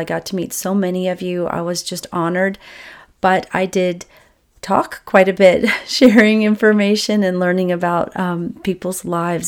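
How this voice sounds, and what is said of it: Scratchy voice. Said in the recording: “My voice is a little scratchy this week”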